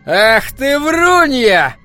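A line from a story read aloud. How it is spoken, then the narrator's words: Shrill shout. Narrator (Russian): пронзительно закричал он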